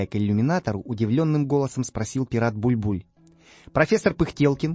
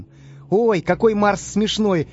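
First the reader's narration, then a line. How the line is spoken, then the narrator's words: Laughing. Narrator (Russian): засмеялся Карандаш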